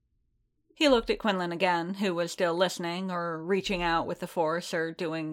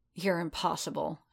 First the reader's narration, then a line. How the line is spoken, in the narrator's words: she growled